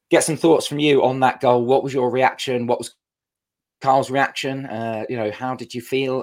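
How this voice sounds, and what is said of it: Hoarse, strained, worn-out voice. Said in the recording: “my voice is absolutely obliterated ... my voice left me ... I'm only just recovering now”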